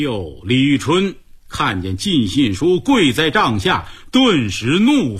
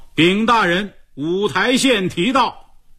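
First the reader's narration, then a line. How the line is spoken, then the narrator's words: Shouted announcement. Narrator (Chinese): 差官喊道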